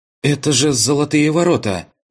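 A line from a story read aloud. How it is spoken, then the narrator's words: Exclaimed. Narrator (Russian): воскликнула Масяня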